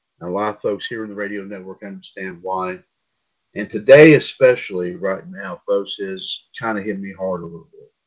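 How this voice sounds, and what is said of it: Subdued, unenthusiastic tone. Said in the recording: “my tone of voice here has not been very enthusiastic over the last couple of days”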